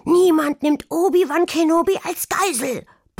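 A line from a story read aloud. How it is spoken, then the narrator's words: Roaring. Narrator (German): brüllte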